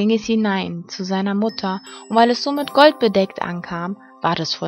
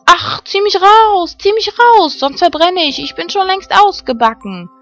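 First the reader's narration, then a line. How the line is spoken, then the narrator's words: Shouting bread. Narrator (German): schrie das Brot wieder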